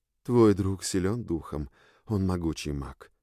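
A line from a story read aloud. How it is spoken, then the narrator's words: Quiet, leaning close. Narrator (Russian): тихо сказала мне королева, наклонившись ближе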